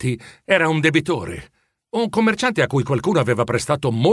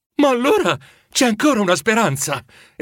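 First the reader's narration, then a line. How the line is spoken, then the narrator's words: Wife exclaiming, brightening. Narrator (Italian): esclamò la moglie, riaccendendosi in viso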